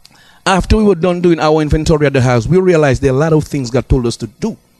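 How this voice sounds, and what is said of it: Very fast speech. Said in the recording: “I'm talking too fast.”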